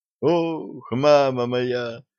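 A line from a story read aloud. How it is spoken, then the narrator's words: Groaning. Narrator (Russian): застонал доктор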